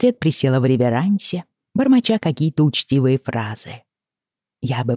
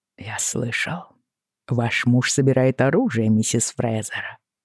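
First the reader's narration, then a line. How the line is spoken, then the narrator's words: Quiet, unfriendly tone. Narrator (Russian): сказал он тихо, с довольно недружелюбной интонацией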